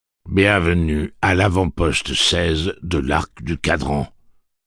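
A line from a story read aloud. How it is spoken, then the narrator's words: Plain. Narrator (French): dit une voix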